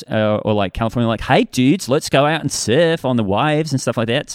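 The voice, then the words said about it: Put-on California American accent. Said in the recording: “I can do an American accent ... those were incredible”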